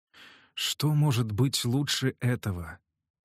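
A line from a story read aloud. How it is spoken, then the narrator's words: Whispered. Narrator (Russian): прошептал Билл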